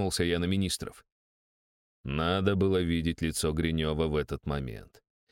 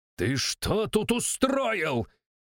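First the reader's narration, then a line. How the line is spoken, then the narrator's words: Angry yell. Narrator (Russian): заорал он на мужика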